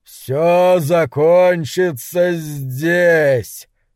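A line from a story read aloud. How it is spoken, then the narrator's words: Booming dragon voice. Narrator (Russian): произнес Хобарт грохочущим драконьим голосом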